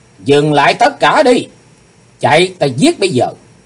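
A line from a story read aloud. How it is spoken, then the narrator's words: Sudden loud shout. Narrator (Vietnamese): Chí Tôn bỗng hét lớn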